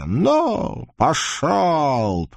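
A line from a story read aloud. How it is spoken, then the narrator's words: Hoarse growl. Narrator (Russian): прорычала хрипло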